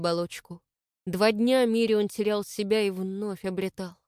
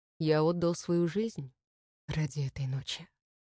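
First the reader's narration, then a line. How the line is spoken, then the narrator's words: Calm, matter-of-fact. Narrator (Russian): спокойно ответил Мирион, словно это было чем-то обыденным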